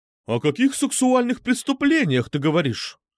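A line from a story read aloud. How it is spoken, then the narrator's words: Horrified exclamation. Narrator (Russian): С ужасом воскликнула Медуза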